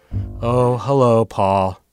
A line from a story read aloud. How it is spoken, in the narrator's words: she said in her Eeyore voice